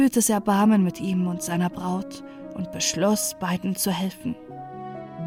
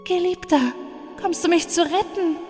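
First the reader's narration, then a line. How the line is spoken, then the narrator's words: Woman calling back in reply. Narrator (German): rief sie zur Antwort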